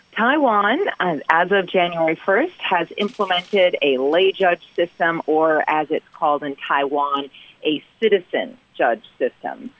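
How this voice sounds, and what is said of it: American English accent. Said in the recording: “I'm an American, as you can tell from the accent”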